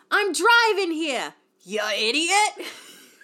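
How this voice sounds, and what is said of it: Put-on regional accent, shouted. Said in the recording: “I don't want to say the accent because I'm not good with the accent. You're the queen of the accents on this podcast ... It's the New”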